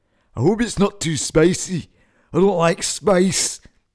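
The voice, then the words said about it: Put-on Scottish accent. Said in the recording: “His response was in a Scottish accent.”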